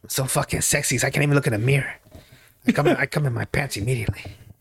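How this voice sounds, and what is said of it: Antonio Banderas impression. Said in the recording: “I'm gonna just do Antonio Banderas ... you got to do the voices”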